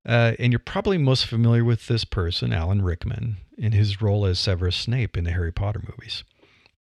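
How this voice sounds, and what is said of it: Flat Midwestern American accent. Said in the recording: “I have that Midwestern accent, which is flat. People don't know where you're from. I don't have the vocal depth that he has.”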